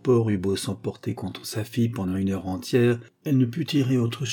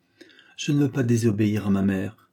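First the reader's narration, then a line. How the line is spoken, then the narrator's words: Young woman, firm voice. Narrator (French): répondit la jeune fille d'une voix ferme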